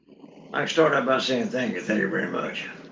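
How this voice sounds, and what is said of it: Elvis-style impersonation voice. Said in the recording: “little Elvis tribute, Elvis impersonation”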